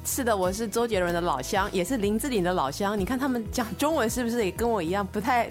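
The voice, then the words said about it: Slight Taiwanese accent in Mandarin. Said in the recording (Chinese): “听口音的话呢，是有一点点台湾口音。... 他的普通话不是很好 ... 他的普通话并不标准”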